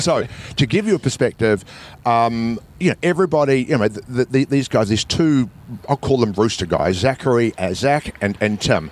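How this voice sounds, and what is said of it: New Zealand accent. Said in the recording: “he had a New Zealand accent”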